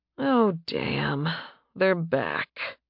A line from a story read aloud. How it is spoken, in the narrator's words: he muttered